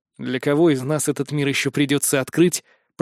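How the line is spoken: Grumbled. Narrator (Russian): пробурчал я

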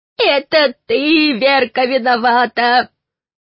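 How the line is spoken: Loud woman shouting from afar. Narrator (Russian): Издалека закричала самая голосистая женщина

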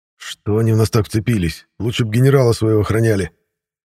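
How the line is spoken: Annoyed, muttered through teeth. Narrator (Russian): С досадой в голосе выдавил сквозь зубы Игнатов, не надеясь, что Лена его услышит

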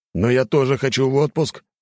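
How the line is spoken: Exclamation. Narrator (Russian): воскликнул он

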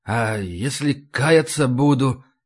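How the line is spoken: Hoarse question. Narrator (Russian): Все так же хрипло спросил пленный

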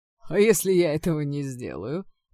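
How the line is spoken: Loud laughter. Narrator (Russian): расхохотался магистр Делмер

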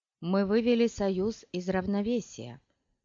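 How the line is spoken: Plain. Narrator (Russian): ответила Чани

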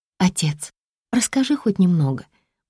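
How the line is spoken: Hesitant plea. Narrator (Russian): неуверенно просит девушка

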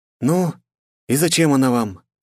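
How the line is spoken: Calm repeated question. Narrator (Russian): спокойно повторила я свой вопрос

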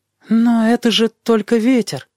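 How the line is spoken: Uncertain objection. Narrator (Russian): возразил он неуверенным голосом

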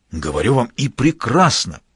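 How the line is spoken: Enthusiastic exclamation. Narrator (Russian): с неподдельным энтузиазмом воскликнул Адашов

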